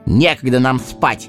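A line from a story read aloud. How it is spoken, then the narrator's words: Angry interruption. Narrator (Russian): сердито оборвал его Сэмми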